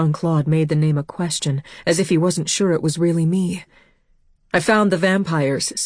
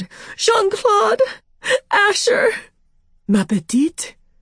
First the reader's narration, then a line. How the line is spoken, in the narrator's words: I screamed